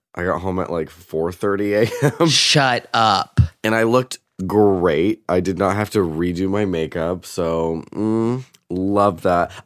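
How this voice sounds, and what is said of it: Hoarse, deep, losing voice. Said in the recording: “I'm losing my voice because yesterday I worked... It sounds like a, oh my god... Kathleen Turner”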